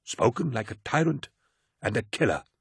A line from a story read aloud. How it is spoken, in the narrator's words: snarled Gardia